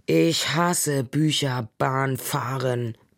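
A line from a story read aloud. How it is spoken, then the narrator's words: Growled. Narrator (German): knurrte Ole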